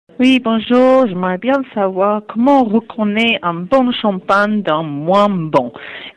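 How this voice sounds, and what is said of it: Pleasant regional accent. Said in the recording (French): “Il y a un bel accent, déjà.”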